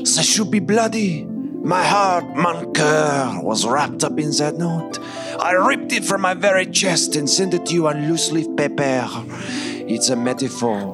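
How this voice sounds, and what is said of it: Put-on French accent. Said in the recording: “I have this French accent”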